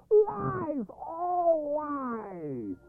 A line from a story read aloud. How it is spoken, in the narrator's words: the boys turned their backs on each other and ran away yelling